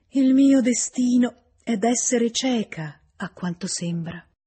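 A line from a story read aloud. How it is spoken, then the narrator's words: Weaker voice, deep sigh. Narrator (Italian): aggiunse con voce più debole e un sospiro profondo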